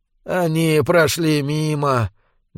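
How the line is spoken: Sad mutter. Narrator (Russian): неожиданно грустно пробормотал он

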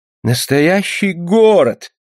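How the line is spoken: Exclaiming. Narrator (Russian): воскликнул Бах

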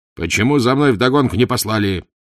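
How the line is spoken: Menacing question. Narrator (Russian): грозно спросил Одинцов

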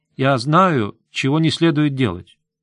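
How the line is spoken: Calm reply. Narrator (Russian): неожиданно спокойно ответил ему Тамура

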